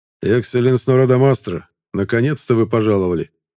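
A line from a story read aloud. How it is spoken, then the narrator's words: Cold smiling tone. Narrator (Russian): холодно улыбнулся Леоран Гран-Блесин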